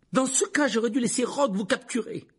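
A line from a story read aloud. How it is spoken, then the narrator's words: Exclaiming. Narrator (French): s'exclama Harry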